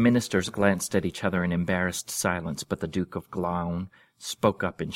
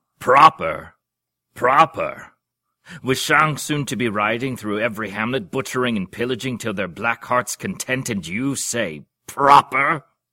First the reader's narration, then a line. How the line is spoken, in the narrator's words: continued in the same roaring voice